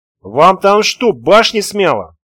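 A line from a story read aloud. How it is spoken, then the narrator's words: Lung-straining shout. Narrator (Russian): Уже и я не выдержал, крикнул так, что аж легкие заболели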